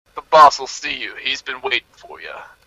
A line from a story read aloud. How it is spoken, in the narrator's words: a changeling says in a gruff voice